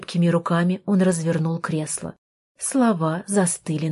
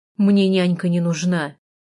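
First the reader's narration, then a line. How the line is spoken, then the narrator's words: Rude. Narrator (Russian): грубо сказал он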